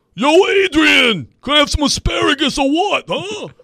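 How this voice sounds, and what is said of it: Poor Sylvester Stallone Philly impression. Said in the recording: “say Adrian in the Philly voice like you're Sylvester Stallone ... That was awful. Philly, I don't really have a grasp on Philly”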